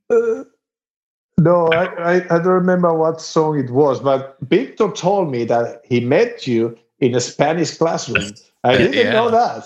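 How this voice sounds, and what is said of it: Very thick accent in English. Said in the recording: “make fun about my accent... I have a very thick accent, but it's not because I'm from Spain. It's because I learned English in Texas”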